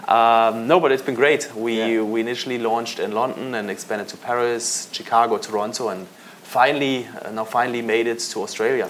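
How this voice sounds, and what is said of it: German accent in English. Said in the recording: “You've got a funny accent. Like, where are you from? ... I can't get rid of that accent. ... I'm German. ... I grew up in Munich.”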